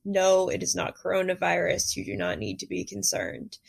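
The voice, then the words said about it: Congested head-cold voice. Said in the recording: “I'm sorry that I sound like this. I have a head cold.”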